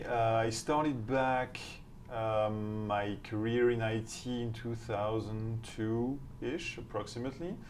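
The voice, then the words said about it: Strong French accent in English. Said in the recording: “my accent, my outrageous accent ... I'm not from here, so I'm French”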